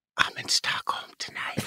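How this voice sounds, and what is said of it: Imitates another person's voice, secretive. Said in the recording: “My impersonation... Yours is like a secret.”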